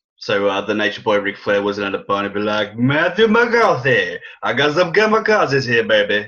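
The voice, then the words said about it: Bad imitation of a wrestler's voice. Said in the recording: “that was a really bad Ric Flair impersonation... Yeah, that was terrible.”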